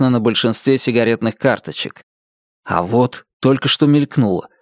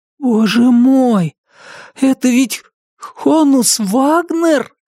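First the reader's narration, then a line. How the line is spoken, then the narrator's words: Breathless exhale. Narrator (Russian): Выдохнул Брайан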